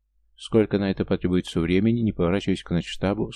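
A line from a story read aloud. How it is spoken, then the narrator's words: Plain. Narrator (Russian): спросил я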